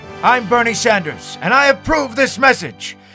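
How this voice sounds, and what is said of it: Loud yelling impression of a politician. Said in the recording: “That's why I'm yelling! ... he blew out the sound guy's eardrums”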